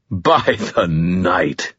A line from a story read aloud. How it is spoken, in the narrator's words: he said, his voice dusty and amused